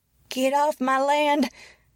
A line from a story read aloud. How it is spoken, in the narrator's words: shouted the woman, her voice old and shrill